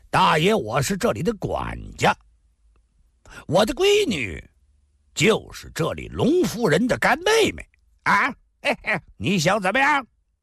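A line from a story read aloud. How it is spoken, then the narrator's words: Loud. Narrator (Chinese): 麻子 大声说道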